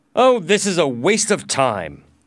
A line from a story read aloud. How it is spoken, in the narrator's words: said angrily